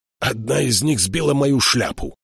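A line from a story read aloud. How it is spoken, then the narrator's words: Angry grumble. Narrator (Russian): сердито проворчал Тайгер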